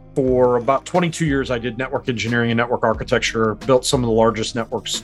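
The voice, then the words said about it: American accent. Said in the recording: “that's not a New Zealand accent. I'm originally from America”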